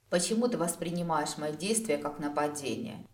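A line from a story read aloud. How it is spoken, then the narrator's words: Quiet, unexpectedly serious question. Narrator (Russian): тихо, неожиданно серьезно спросил Дроу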